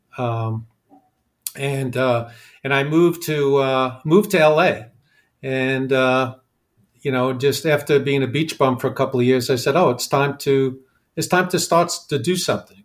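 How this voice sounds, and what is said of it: New York accent. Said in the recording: “I grew up in New York. You can probably tell from I still have my accent”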